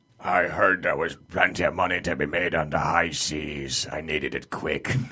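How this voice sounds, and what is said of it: Pirate voice impression. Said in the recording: “do a pirate impression”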